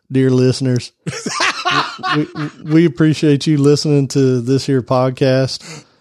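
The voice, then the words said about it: Put-on country accent. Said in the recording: “when you cross the Alabama line going west on 20 ... kind of country. We talk country. Country.”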